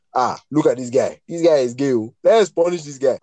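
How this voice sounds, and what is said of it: Put-on Nigerian accent. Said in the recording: “Nigerian accent”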